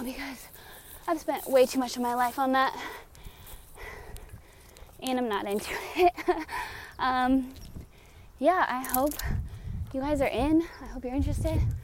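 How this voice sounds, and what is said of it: Out of breath, panting. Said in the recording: “out of breath because I'm going up a huge hill”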